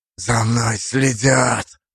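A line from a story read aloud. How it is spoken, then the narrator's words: Urgent hiss into phone. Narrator (Russian): прошипел он в трубку, едва дождавшись ответа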